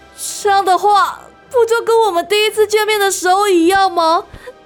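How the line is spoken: Wry laugh. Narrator (Chinese): 丹影不禁苦笑着说

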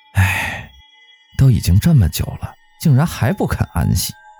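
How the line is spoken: Sighing young man. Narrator (Chinese): 小伙子叹气道

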